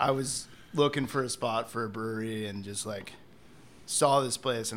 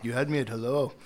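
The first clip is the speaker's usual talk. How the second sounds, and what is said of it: Attempted German accent. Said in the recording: “I'm, going to try to do a German accent. I think I'm getting better at it”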